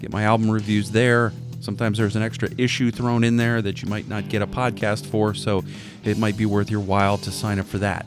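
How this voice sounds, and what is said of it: Raspy, strained voice. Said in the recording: “my voice is a little raspy. I went to see the Winery Dogs, and I haven't quite recovered from that”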